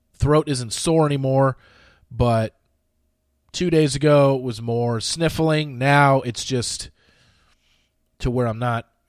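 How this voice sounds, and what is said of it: Congested, strained voice. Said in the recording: “Voice kind of going a little bit. ... It's mostly just congestion now. ... you can hear it in my voice. It's going a little bit”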